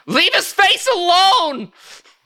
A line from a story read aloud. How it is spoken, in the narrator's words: You hear someone scream